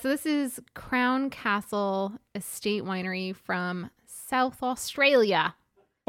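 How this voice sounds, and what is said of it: Poor put-on Australian accent. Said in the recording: “a terrible Oles. Accent. ... Shouldn't have tried it.”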